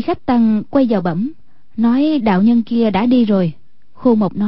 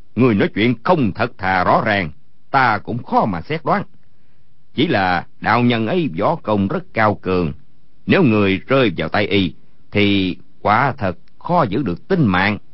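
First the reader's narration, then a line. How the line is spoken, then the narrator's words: Angry. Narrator (Vietnamese): Khô Mộc giận dữ nói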